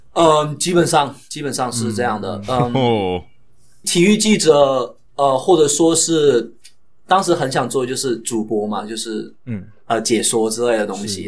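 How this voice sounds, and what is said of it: Heavy southern Chinese accent. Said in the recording (Chinese): “我的普通话又不是很好...因为我是非常南方的孩子嘛，然后我们的口音就非常重，无可救药的重”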